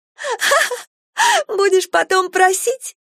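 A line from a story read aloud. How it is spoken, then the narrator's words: Laughing taunt. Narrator (Russian): засмеялась Полина в лицо ветерка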